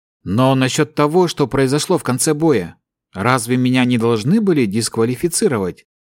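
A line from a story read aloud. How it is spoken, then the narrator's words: Calm young man's question. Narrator (Russian): спокойно спросил парень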